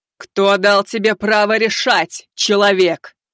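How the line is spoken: Thunderous, earth-shaking. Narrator (Russian): прогремела, отчего небеса затряслись

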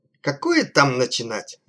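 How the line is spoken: Irritated old man's grumble. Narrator (Russian): раздраженно проворчал маленький, согнувшийся от старости дирижер Герц Орлеанский

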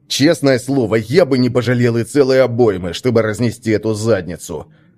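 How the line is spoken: Seething grumble. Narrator (Russian): закипая, пробурчал Свен

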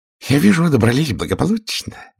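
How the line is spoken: Cooing. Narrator (Russian): ворковал он

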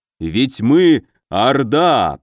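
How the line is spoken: Growl. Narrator (Russian): прорычал Викула

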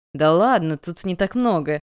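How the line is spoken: Laughing young man. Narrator (Russian): рассмеялся парень

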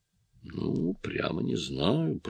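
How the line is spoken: Muttering. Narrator (Russian): пробормотал я

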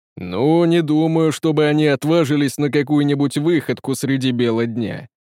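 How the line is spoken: Deep booming voice. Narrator (Russian): пробасил тиран

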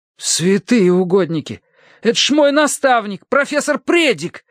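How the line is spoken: Exclaiming. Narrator (Russian): воскликнул Терренс

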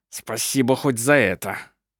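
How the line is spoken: Through gritted teeth. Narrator (Russian): сквозь зубы процедил Ленцман

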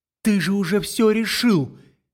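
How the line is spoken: Desperate tearful shouting. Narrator (Russian): Сквозь слезы отчаянно кричит мне в лицо Мэл

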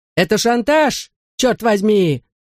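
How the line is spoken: Shouted. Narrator (Russian): закричал мистер Молтри

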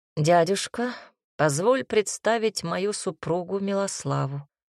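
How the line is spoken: Lazy, casual. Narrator (Russian): лениво махнул рукой Макс

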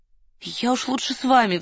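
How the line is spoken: Pleading. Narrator (Russian): взмолилась Варя

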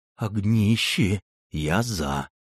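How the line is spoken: Hoarse sigh. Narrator (Russian): сипло вздохнул подпоручик

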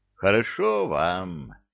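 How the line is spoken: Mournful drawl. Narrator (Russian): тоскливо протянула

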